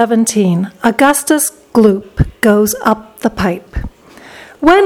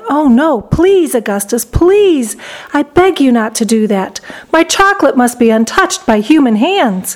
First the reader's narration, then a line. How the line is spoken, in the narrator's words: Wonka cried out